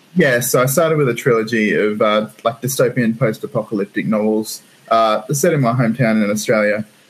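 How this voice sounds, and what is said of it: Australian accent. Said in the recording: “hence the ridiculous accent.”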